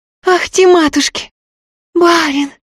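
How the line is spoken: Loud frightened whisper. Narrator (Russian): громким испуганным шепотом сказала она

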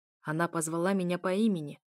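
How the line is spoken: Growling. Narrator (Russian): прорычал Машеир

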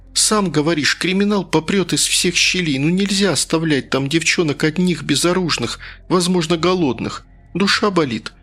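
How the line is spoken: Pleading. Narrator (Russian): почти взмолилась я

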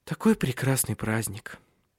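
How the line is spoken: Sigh. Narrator (Russian): вздохнула она

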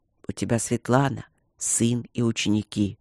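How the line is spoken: Gentle. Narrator (Russian): объяснил он мягко

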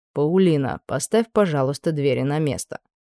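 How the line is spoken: Calm request. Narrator (Russian): спокойно попросил Аделард

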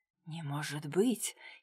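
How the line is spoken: Quiet. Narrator (Russian): тихо произнес Дронго

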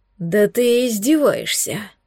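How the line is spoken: Hoarse enchanted exhale. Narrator (Russian): Хрипло выдохнул блондин, как зачарованный

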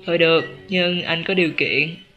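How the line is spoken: Helpless sigh. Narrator (Vietnamese): Chu Phóng thở dài bất lực

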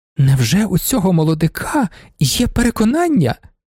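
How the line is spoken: Exclamation. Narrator (Ukrainian): вигукнула панна Ізабелла

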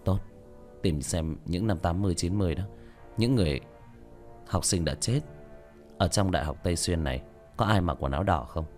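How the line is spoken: Quiet. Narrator (Vietnamese): Lâm Kiều nhỏ giọng nói

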